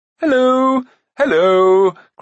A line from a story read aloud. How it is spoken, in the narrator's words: cried Prince Rune